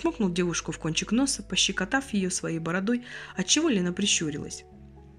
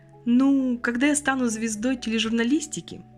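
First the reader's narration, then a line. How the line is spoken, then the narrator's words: Laughing. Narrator (Russian): Игорь засмеялся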